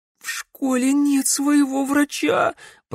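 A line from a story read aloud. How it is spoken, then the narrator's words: Moaning young woman. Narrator (Russian): простонала девушка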